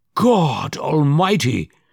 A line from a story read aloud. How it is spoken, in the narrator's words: he cried